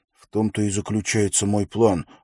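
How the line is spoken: Snapping retort. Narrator (Russian): огрызнулся Уилл

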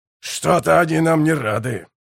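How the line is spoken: Grumbling. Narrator (Russian): проворчал Ураган

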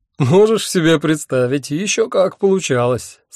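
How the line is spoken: Laughing. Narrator (Russian): сквозь смех выговорил я

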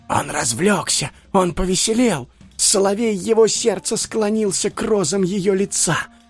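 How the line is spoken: Whispering courtiers. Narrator (Russian): шептались придворные

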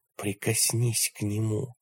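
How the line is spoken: Whisper. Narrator (Russian): прошептал Кэл

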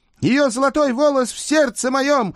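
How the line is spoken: Loud thin-voiced singing. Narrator (Russian): громко пропел тонкий голос

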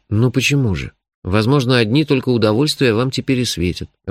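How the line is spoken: Timid objection. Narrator (Russian): робко возразил я

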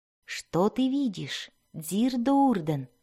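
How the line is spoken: Quiet, not disturbing. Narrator (Russian): спросила она тихо не потому, что испытывала нежность к ребенку, а потому, что не хотела беспокоить мать

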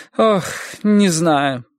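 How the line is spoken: Sigh. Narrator (Russian): вздохнула Эдди

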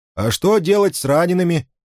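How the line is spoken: Shouting. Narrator (Russian): крикнул он огненному лису

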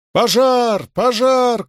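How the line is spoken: Street shouts over alarm bells. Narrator (Russian): кричали на улице под колокольный набат с дозорной вышки

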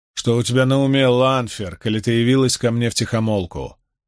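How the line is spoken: Rough question. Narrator (Russian): грубо спросил Равин

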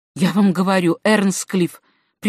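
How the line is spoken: Whispered. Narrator (Russian): прибавил он шепотом

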